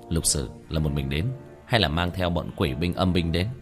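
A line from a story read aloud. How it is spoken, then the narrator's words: Concerned question. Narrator (Vietnamese): Tiểu Thất khẽ nhíu mày, ... liền hỏi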